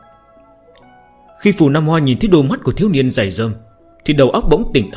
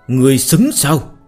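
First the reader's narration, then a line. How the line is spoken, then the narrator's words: Strained, harsh growl. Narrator (Vietnamese): Hắn ta gắng sức gằn giọng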